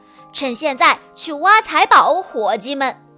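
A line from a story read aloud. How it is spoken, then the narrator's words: Loud command. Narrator (Chinese): 小便胡子爷大声地下达命令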